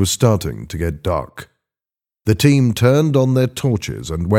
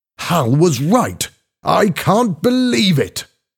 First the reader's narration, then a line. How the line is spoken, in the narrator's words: shouted